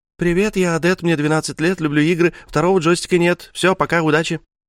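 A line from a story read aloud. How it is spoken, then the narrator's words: Rapid chatter. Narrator (Russian): Адет, наконец, затараторила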